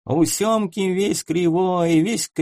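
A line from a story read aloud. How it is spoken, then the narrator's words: Nasal singing. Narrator (Russian): запел кто-то из его прежних товарищей гнусавым голосом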